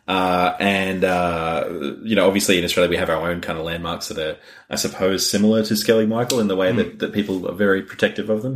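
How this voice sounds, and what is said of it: Australian accent. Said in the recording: “you hadn't figured out from my accent, or the two accents had confused you. We are recording this in Australia.”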